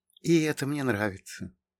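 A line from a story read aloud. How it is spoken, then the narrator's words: Quiet. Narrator (Russian): тихо сказала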